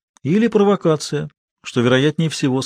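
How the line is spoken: Plain. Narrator (Russian): сказал Санчес

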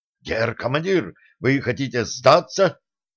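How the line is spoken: First mate shouting out. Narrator (Russian): выкрикнул старший помощник

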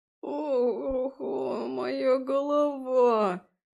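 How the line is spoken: Groaning fairy. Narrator (Russian): простонал фей

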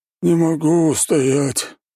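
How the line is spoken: Sighing man. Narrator (Russian): вздохнул толстяк

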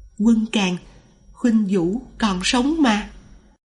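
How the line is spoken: Soft, quiet voice. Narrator (Vietnamese): khe khẽ nói

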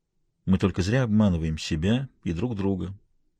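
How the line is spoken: Muffled, detached female voice. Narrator (Russian): промолвила она, и ее голос прозвучал глухо и отстраненно

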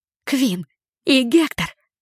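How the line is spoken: Breathless exhale. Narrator (Russian): выдохнула я в ответ

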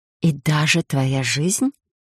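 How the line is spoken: Insinuating whisper. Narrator (Russian): Перешла она вкрадчивый шепот

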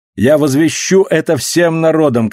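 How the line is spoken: Shouting. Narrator (Russian): кричал Септимус

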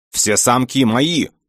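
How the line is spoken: Menacing howl in head. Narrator (Russian): грозно завопило в голове

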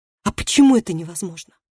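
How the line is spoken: Sharp question. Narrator (Russian): резко спросила девушка

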